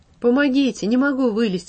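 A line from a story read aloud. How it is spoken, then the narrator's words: Pleading. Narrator (Russian): взмолился наконец Сережа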